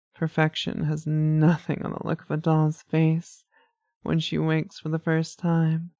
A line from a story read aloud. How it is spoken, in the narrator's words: Lamia chuckled